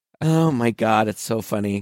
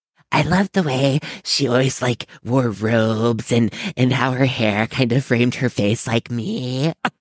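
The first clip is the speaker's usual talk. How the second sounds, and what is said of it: Spot-on Jennifer Tilly impression. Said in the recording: “your Jennifer Tilly impression, by the way. It's really spot on.”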